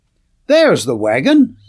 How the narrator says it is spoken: Sands suddenly exclaimed

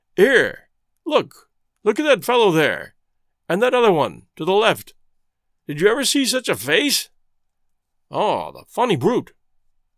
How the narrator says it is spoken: called out to Carlier

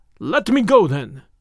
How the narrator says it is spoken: cried

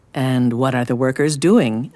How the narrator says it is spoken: asked Rabbi Hillel

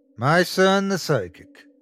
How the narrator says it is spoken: Kent joked

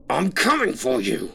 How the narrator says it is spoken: the man screamed

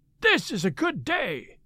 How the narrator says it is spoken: cried he

